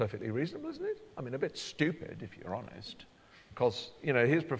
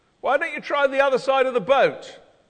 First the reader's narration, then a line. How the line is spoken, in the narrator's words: It wouldn't be either unreasonable or surprising for someone to shout